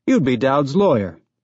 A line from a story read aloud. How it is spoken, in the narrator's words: Miller said cheerfully